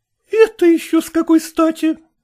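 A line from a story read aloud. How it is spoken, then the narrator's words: Daughter's exclamation. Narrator (Russian): воскликнула дочь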